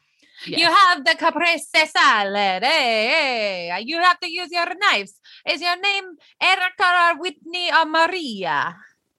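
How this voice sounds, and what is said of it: Put-on Italian accent. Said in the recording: “In an Italian accent.”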